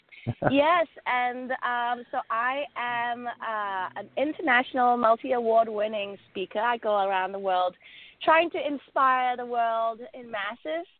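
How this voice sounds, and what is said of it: Slight English accent. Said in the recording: “slight twang in my voice. That's my English accent”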